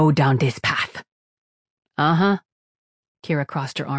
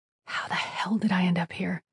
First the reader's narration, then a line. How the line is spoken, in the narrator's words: She muttered